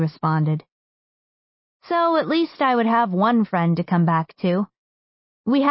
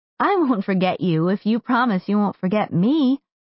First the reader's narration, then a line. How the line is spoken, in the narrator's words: Mel said